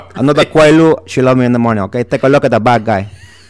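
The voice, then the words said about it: Tony Montana Scarface character voice. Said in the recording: “That's Scarface ... It's very stereotypical that you'd be able to do that impression”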